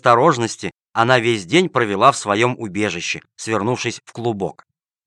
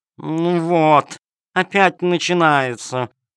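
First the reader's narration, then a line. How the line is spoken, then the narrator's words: Purring cat. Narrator (Russian): промурлыкала кошка-хромоножка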